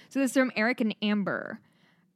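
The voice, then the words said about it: Strong Midwestern American accent. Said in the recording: “my Midwest accent comes out really hard sometimes”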